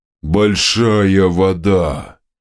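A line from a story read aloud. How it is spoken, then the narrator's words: Booming drone. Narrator (Russian): Прогудела левая голова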